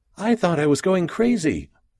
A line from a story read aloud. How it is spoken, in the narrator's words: said the lady as she looked around nervously